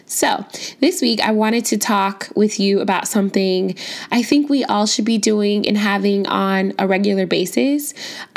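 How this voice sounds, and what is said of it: Slightly sick-sounding voice. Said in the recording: “I am just a tad bit under the weather today, so you might be able to hear it in my voice”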